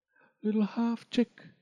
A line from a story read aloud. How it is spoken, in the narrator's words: whispered the water